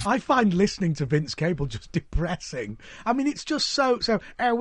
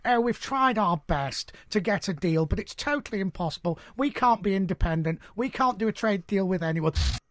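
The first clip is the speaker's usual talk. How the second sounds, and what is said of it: Impression of Vince Cable. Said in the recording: “his take on Sir Vince Cable ... It's his normal voice ... doing an impression of somebody who's just been on the show”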